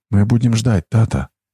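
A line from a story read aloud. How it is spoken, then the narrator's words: Quiet. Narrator (Russian): тихо сказала она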